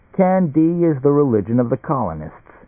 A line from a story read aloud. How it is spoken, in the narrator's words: he chuckled